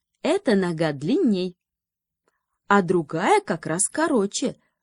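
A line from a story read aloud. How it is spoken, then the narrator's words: Joyful chime-in. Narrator (Russian): радостно подхватила подруга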